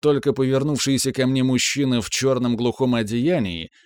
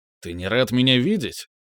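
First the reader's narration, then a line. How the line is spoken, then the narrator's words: Displeased voice. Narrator (Russian): Иквус недовольным голосом произнес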